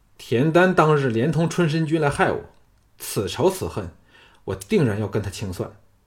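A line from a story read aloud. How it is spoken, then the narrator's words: Angry snort. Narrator (Chinese): 李渊提起田丹，便心头火起，怒哼说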